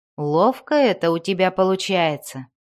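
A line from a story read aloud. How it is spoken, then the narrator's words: Mocking. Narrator (Russian): насмешливо сказал он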